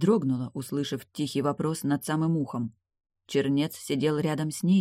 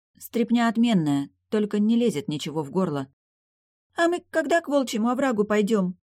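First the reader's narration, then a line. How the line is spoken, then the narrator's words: Loud sniffling question. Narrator (Russian): Шмыгая носом, громко спросила Млавка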